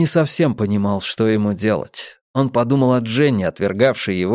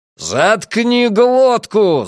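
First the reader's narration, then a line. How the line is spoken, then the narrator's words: Yelling. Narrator (Russian): заорал Трэвис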